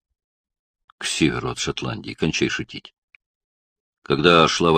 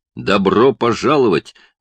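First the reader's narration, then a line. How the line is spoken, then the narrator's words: Barked. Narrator (Russian): рявкнул он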